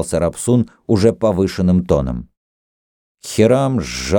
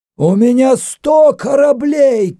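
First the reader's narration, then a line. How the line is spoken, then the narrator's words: Louder shout. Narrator (Russian): крикнул еще громче Хирам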